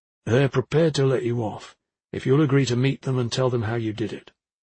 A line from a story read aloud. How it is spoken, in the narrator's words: as calmly as he could, he said